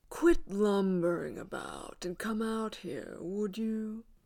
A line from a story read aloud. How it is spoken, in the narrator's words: purred